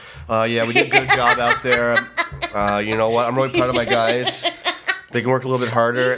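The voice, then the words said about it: Imitates another person's voice. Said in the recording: “my Paul McClain impression”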